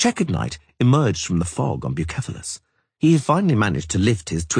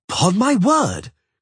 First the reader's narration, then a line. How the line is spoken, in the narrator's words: crowed the other, with a uniformly blue shield, in a youthful voice